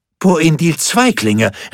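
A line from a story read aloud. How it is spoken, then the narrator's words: Joyful shout. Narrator (German): rief er dann freudig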